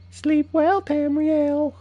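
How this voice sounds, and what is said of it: Crazy character voice. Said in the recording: “my best crazy impression”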